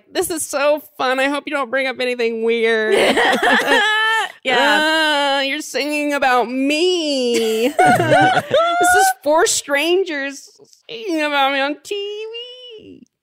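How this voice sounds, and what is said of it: Imitates a giddy game show participant. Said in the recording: “That was my impression of it.”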